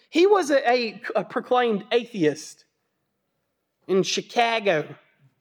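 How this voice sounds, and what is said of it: Poor imitation Chicago accent. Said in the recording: “That was a terrible Chicago accent”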